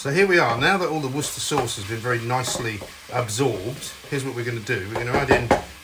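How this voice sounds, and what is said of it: Usual voice. Nothing is said of it.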